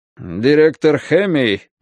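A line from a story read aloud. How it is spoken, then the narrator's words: Gloomy. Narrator (Russian): мрачно говорит Ворстенбосс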